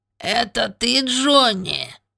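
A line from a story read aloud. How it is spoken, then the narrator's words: Squeaky voice. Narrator (Russian): пропищал он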